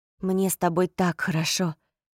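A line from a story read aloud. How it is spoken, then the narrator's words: Muffled intimate murmur. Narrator (Russian): пробормотал он, покусывая и посасывая мочку уха Поппи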